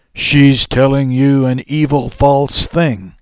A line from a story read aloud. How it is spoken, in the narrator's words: shouted the woman